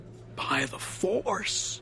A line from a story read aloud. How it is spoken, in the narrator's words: he whispered